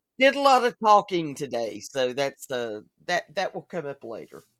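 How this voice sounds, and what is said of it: Slightly croaky, strained voice. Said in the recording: “pardon my voice. It just went to hell this morning. ... that might be a little bit croaky”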